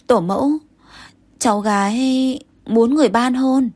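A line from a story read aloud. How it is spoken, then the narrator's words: Shy stammering. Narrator (Vietnamese): Công chúa vẻ mặt có chút ngượng ngùng ... ấp úng ... Thái Hậu nói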